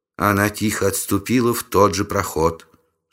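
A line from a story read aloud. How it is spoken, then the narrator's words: Calm report. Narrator (Russian): спокойно доложила Сун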